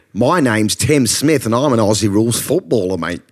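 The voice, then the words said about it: Put-on Australian accent. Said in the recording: “How Good's Your Aussie Accent? ... There were some good moments in there. ... There were some highlights.”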